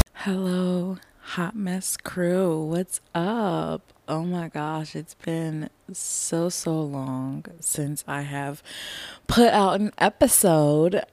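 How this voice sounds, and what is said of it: Unsteady voice, going in and out. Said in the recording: “my voice is a little, it's going to be, you know, in and out, up and down. ... I think I might be coming down with something.”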